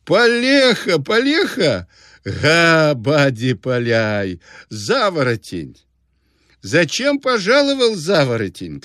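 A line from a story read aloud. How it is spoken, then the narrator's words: Shouting through laughter. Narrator (Russian): кричал он сквозь смех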